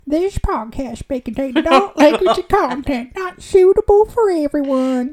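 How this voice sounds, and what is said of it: Put-on accent. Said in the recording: “That accent's not suitable for anyone.”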